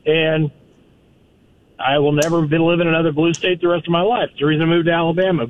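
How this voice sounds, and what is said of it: Noticeable non-local American accent. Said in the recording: “you can tell from the accent. I moved here from a blue state.”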